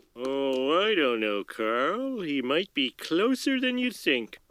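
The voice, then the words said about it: Sly, insinuating voice. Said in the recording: “in that real sly voice”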